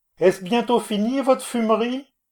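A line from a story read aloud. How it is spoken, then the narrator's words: Shouted. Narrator (French): je criai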